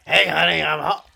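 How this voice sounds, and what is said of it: Imitates another person's voice. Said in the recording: “Don't try to do my voice ... I was giving you an impression of what you might sound like”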